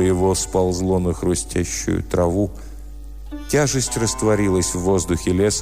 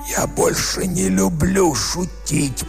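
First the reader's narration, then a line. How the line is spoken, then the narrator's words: Hoarse rasp. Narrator (Russian): прохрипел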